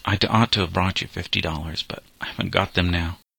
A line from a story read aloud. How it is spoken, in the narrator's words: he stammered